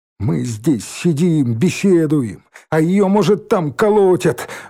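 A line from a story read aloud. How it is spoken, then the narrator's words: Sudden shout. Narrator (Russian): Вдруг крикнул Димка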